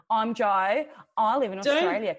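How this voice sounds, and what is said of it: Mock Australian accent. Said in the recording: “Can't you tell from my accent? ... I don't sound like that.”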